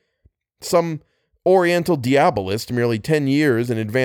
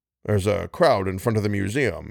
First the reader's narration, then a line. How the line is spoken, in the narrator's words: he muttered